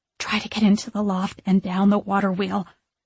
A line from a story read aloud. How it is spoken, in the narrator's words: I whisper